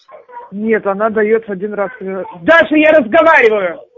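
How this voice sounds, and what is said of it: Shouting, raised angry voice. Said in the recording (Russian): “не ори”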